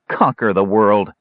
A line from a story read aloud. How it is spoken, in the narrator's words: Dalimar sneered